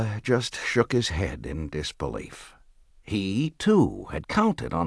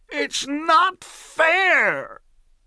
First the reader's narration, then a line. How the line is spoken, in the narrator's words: his face turned red, and he screamed at the top of his voice